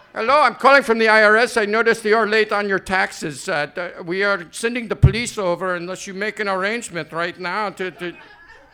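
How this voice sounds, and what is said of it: Put-on South Asian call-center accent. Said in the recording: “it sounds like somebody from the Philippines ... All my accents sound exactly the same ... it's all going to sound like they're from India”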